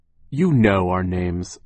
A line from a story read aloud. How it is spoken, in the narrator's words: Violet said curtly, a word which here means tired of Count Olaf's nonsense